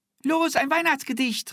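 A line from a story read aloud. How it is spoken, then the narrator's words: Calling out. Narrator (German): rief Angelika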